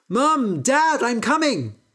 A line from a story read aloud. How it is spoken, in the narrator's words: He shouted